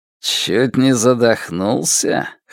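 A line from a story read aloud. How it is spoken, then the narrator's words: Snorted. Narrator (Russian): хмыкнул Пин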